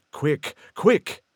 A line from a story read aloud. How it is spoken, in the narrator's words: cried the ghost